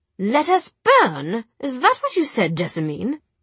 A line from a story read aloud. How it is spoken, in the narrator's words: said Charlotte in a bright, hard voice, so unlike her